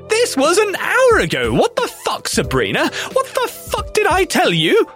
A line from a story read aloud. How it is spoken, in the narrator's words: she started swearing